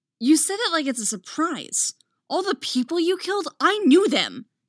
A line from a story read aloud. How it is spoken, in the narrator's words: Anakin snaps